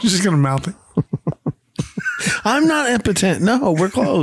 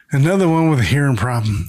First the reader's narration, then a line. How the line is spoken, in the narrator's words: Carl sighs and says